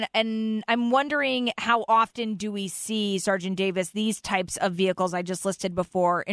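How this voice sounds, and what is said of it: Usual voice. Nothing is said of it.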